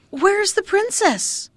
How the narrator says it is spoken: someone cried out

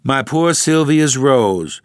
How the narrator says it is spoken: exclaimed Dr

